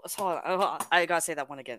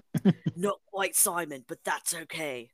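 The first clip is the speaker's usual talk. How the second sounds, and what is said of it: Deep amused British accent. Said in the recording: “I gotta do it with the accent. ... A deep British accent voiced with amusement”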